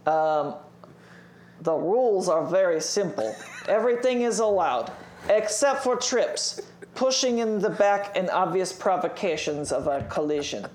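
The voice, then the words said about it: Put-on Russian accent. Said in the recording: “In a Russian accent, please.”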